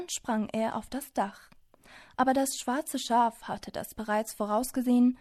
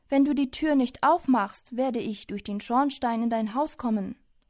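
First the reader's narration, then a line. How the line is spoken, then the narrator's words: Angry wolf shouting. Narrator (German): Der Wolf rief wütend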